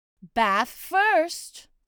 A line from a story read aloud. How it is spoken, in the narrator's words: said Kanga in a cheerful voice